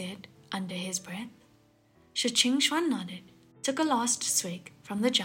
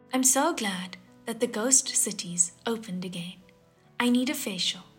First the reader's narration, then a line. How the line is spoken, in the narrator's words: one said